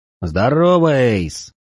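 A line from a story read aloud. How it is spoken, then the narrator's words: Booming drone. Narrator (Russian): прогудел Большой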